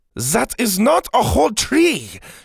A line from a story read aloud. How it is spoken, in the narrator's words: she barked at Ash